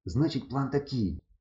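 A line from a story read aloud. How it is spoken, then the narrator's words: Whispered. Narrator (Ukrainian): прошепотів Кукурузо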